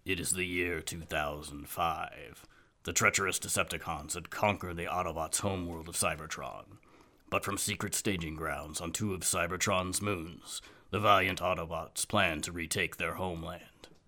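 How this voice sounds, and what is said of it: Imitates famous voiceover narrator. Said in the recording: “we hear the famous voiceover that, do your best impression.”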